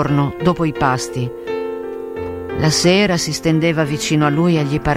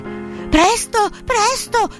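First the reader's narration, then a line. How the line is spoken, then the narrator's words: Shouting. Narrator (Italian): gridava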